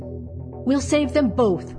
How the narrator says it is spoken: cried they

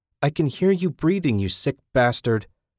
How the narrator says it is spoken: Beth cried

